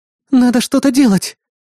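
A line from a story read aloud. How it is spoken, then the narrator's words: Breathless exhale. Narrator (Russian): выдохнула напарница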